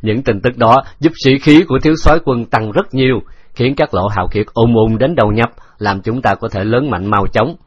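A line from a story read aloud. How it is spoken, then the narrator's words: Laughing. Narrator (Vietnamese): Hư Hành Chi bật cười nói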